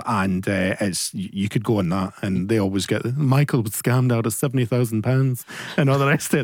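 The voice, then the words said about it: Imitates another person's voice. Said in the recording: “That's my Gloria Hunniford impression”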